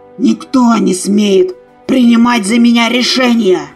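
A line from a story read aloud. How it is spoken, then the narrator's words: Roar. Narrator (Russian): проревел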